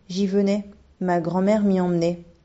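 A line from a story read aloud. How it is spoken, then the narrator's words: Sighing reply. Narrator (French): répondit-elle en soupirant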